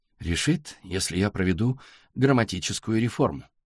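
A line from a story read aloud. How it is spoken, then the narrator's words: Plain. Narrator (Russian): сказала Сашка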